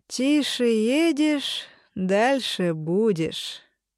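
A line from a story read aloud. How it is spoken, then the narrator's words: Plain. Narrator (Russian): всегда говорит он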